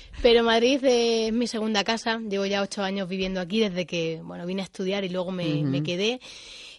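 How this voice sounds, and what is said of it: Extremaduran Spanish accent. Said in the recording (Spanish): “Con ese acento ... me delata.”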